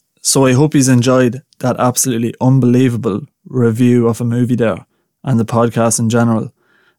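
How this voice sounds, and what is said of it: Strong regional accent, hard to understand. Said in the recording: “my accent at times probably makes some things difficult to understand”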